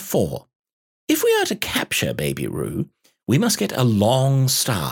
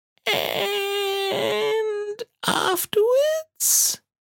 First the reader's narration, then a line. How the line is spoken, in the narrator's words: Piglet, who had been opening and shutting his mouth without making any noise, managed to say very huskily